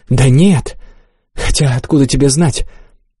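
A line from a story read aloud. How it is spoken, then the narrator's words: Low quiet voice. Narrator (Russian): понизила голос, тихо сказала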